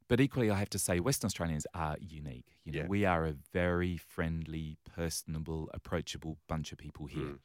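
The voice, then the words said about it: English accent. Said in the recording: “you might pick from my accent that I originally hail from the other side”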